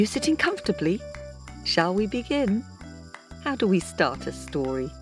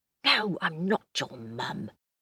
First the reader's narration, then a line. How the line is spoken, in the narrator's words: whispered Priya, rather startled